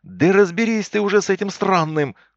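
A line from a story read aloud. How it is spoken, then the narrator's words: Yelling. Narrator (Russian): заорал я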